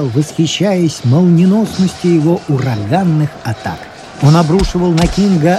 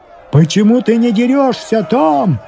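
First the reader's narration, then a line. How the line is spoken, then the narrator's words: Shouting spectators. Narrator (Russian): кричали некоторые из зрителей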